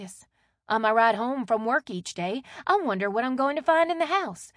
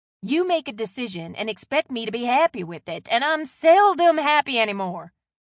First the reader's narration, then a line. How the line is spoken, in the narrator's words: Leanne snapped